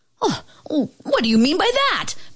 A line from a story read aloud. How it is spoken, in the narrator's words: bellowed the king